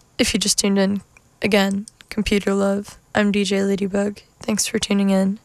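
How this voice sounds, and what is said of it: Tired-sounding voice. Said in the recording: “I don't know if you can hear in my voice. I'm a little tired”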